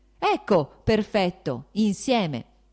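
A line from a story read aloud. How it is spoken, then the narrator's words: Shouting. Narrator (Italian): gridò Lievin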